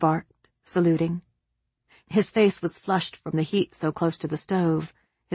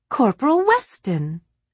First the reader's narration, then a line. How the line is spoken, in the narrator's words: exclaimed Eliza, delighted to recognize a familiar face